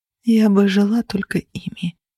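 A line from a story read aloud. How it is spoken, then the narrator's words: Whispered through tears. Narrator (Russian): прошептала я, глотая кровь и слезы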